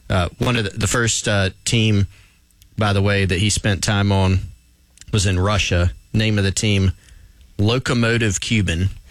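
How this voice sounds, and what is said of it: South Carolina Southern accent. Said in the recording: “my Belton, South Carolina accent”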